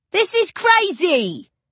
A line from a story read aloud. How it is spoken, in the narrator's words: the man roars, starting forward indignantly